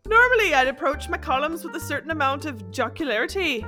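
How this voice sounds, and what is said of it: Weak attempt at Irish accent. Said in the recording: “I can't even do an Irish accent”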